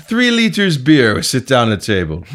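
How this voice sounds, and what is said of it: Exaggerated foreign Eastern European accent. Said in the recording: “That was Russian. ... It was just a bad impression of the Dan Aykroyd impression of the two foreign guys”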